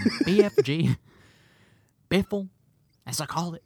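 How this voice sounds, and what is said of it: Imitates another person's voice, Southern-sounding. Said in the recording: “my Paul Giamatti impression ... He does not have a southern accent ... That is not a Paul Giamatti impression.”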